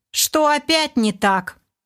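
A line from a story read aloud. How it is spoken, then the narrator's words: Indignant question. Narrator (Russian): возмущенно поинтересовался Олег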